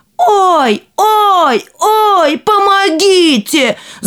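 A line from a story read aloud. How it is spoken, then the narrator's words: Shout. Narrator (Russian): закричал император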